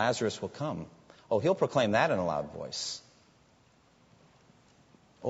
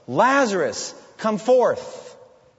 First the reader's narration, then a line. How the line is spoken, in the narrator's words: he'll call out in a loud voice